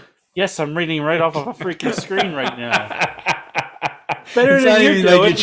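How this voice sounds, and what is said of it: Usual voice. Nothing is said of it.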